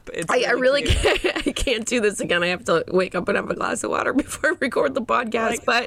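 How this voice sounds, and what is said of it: Hoarse, just-woken-up voice. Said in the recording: “sorry my voice is so hoarse. I literally just woke up ... You sound kind of like a little girl who like just woke up from a nap.”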